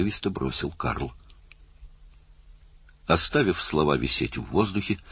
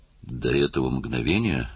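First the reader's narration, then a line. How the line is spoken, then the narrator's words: Wooden, hypnotized voice. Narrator (Russian): сказал Уиллер деревянным голосом, словно загипнотизированный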